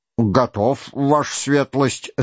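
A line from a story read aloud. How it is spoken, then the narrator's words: Plain. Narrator (Russian): сказал генерал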